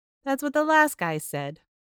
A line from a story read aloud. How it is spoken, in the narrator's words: chuckled